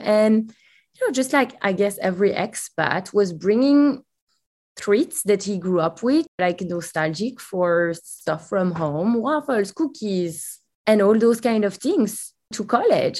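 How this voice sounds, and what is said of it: Belgian accent. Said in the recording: “you can hear it from my accent. I'm not from the US. I'm actually from Belgium.”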